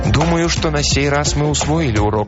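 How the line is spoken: Plain. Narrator (Russian): ответил Дэн

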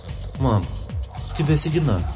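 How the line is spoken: Frightened boy mumbling. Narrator (Russian): пробормотал мальчишка испуганно

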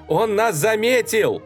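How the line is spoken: Alarmed shout. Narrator (Russian): еще раз крикнула Ева

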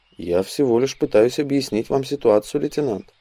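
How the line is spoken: Calm male reply. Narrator (Russian): спокойно ответил Андрей

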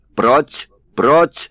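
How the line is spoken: Shouting. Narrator (Russian): кричал Кандаиди

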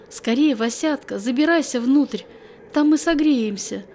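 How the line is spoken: Joyful exclamation. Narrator (Russian): обрадованно воскликнула Настя

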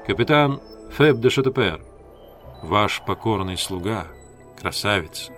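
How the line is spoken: Plain. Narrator (Russian): ответил офицер

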